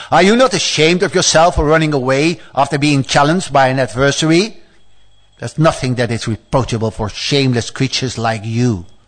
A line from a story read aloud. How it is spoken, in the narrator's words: Hiranyaksha chased him and roared